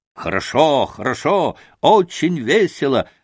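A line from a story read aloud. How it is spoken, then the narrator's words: Group shouting. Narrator (Russian): закричали они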